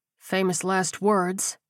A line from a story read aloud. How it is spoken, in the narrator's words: he muttered